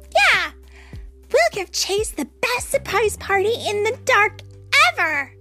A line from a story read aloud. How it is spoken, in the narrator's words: barked Sky